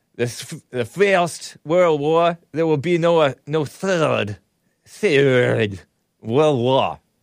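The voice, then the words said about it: Imitated Volodymyr Zelensky's Ukrainian accent. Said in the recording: “I love that accent... I'm imitating it and mocking it, but in an admiring way”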